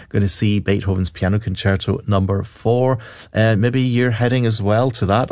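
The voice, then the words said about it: Scottish accent. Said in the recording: “a wee Scottish accent, it could be me”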